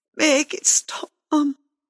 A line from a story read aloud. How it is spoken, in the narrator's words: he groaned